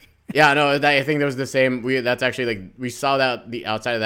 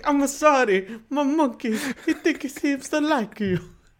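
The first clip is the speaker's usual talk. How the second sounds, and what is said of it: Exaggerated Italian accent. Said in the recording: “a great, great Italian accent ... a like really mad Italian accent”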